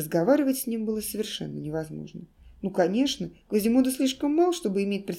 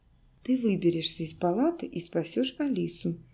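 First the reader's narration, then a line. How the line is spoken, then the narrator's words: Calm, adult-like. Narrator (Russian): Квазимода говорил спокойно, как взрослый, уже составивший план действий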